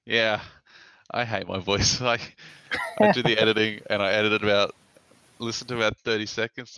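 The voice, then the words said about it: Pleasant accent. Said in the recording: “we get to listen to your beautiful voice ... it's the accent. It does it. It's very nice”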